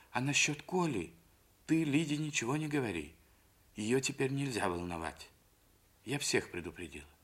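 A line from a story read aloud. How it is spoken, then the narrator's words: Whisper. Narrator (Russian): шепнула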